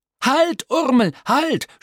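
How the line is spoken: Shouted too late. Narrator (German): schrie Tim Tintenklecks zu spät

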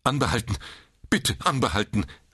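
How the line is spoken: Call. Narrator (German): rief Mr

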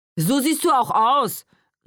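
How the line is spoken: Calling out. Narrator (German): rief

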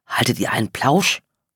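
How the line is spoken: Indignant whisper. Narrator (German): Obwohl er flüsterte, klang seine Stimme empört

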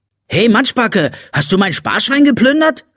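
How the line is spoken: Angry question. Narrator (German): fragte er wütend

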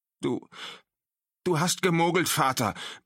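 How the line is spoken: Gasping out. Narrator (German): brachte er keuchend hervor

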